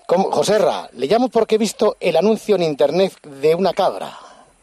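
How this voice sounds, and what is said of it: Foreign accent in Spanish. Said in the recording (Spanish): “¿Tiene un acento de extranjero? ... Porque se lo nota en el acento.”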